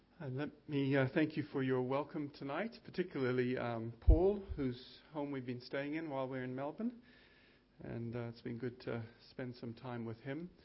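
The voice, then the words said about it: Mixed New Zealand and American accent. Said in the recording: “where does that accent come from ... I'm a New Zealander, but I grew up in India as a missionary kid in an American boarding school ... did my theological training in the United States”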